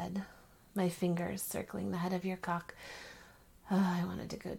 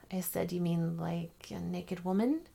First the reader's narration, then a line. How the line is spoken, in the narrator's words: You laughed